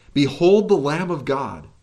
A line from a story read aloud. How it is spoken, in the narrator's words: as he cried